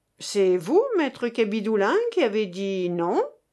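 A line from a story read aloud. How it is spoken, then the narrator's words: Plain. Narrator (French): demanda Jean Kardec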